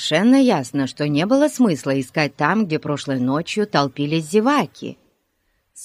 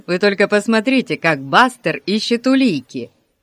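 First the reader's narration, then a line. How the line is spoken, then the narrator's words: Giggle. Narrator (Russian): хихикнул Пип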